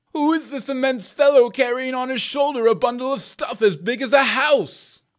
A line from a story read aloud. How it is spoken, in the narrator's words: cried the king, terrified to think how much gold he would carry off